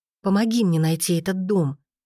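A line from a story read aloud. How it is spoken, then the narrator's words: Angry tearful whisper. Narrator (Russian): сердито стирая слезы, прошептала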